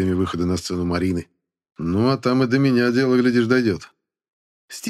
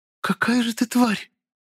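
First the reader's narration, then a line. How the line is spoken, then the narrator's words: Surprised, dazed babbling. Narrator (Russian): Удивленно пролепетала Марина, даже в своем немного заторможенном состоянии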